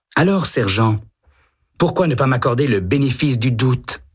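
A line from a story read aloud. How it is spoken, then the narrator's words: Almost pleading voice. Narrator (French): demande-t-il d'une voix presque suppliante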